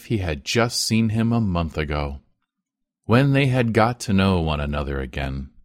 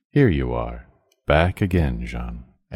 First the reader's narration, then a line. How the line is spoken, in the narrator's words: the old man, all a tremble, said in his calm tone, which he never lost